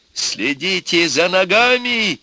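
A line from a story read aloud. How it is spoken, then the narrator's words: Shouting again. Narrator (Russian): опять крикнул жених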